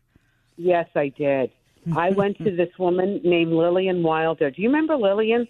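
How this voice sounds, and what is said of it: Brooklyn accent. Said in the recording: “the Brooklyn accent. You never tried, pardon the expression, to get rid of it?”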